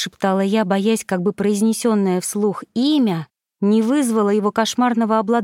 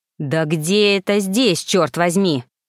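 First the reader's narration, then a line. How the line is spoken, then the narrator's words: Growl. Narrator (Russian): прорычал он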